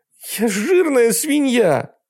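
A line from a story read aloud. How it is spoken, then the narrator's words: Sobbing. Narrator (Russian): рыдает она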